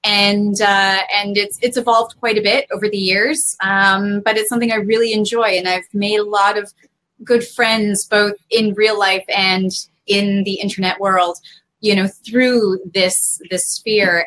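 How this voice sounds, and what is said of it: Slight Canadian accent. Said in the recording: “a little bit of a Canadian accent”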